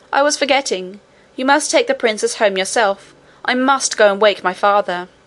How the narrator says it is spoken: he cried

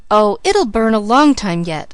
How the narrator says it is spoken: I gasped, for Uncle Blair was whisking us up the hill at a merciless rate

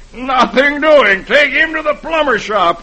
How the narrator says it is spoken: he yells

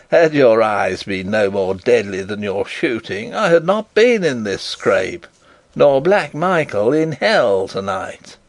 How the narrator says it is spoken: laughed Rupert

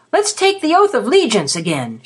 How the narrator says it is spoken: shouted Cad

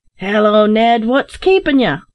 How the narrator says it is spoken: roared

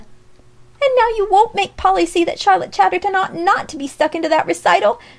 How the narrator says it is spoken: cried Alexia wildly

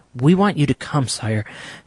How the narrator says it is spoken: panted the newcomer

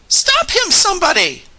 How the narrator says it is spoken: screamed Josiah Crabtree at the top of his voice

